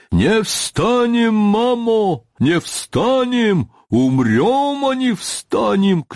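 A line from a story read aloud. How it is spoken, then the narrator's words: Crowd shouting. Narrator (Russian): кричали запорожцы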